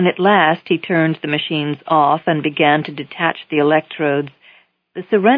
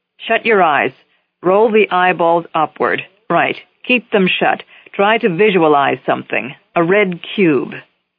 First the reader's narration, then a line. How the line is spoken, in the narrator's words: Haber said sharply